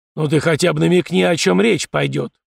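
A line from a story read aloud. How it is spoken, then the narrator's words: Deep bass voice. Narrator (Russian): пробасил Фома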